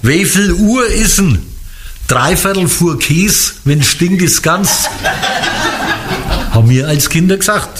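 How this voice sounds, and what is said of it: Franconian German dialect. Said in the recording (German): “welcher bayerische Dialekt ist denn das jetzt? ... das ist fränkisch”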